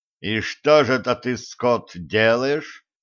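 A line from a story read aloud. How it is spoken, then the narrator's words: Menacing question. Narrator (Russian): грозно вопросил Федя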